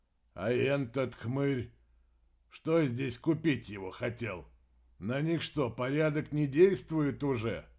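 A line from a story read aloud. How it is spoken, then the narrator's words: Sighing explanation. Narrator (Russian): Вздохнув, мнимый безопасник поясняет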